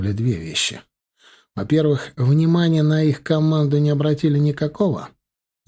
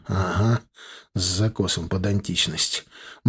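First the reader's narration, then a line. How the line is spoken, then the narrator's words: Gloomy agreement. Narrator (Russian): мрачно согласился Стас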